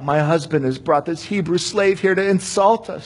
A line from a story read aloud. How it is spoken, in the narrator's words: sobbed